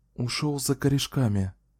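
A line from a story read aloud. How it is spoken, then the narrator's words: Calm reassuring voice. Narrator (Russian): спокойным ободряющим голосом ответила Кэлен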